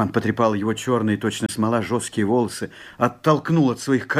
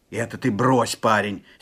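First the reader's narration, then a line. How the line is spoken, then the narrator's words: Angry exclamation. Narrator (Russian): сердито вскричал Степан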